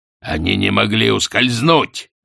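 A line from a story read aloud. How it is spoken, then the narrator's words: Sharp, curt. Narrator (Russian): резко бросил Астфгл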